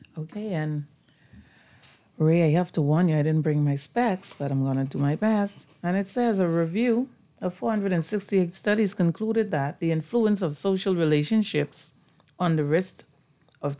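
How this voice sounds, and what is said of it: Raspy, husky voice. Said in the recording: “sexy voice on the line ... My raspy voice”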